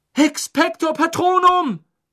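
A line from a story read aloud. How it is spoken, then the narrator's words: Shout. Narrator (German): schrie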